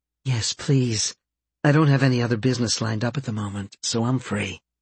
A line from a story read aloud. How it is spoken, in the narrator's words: Purring, she replied